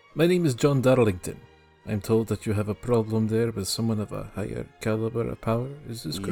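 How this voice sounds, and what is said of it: Strange, non-local accent. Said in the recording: “His accent was strange. It wasn't from around here, and I wasn't sure exactly where he was from.”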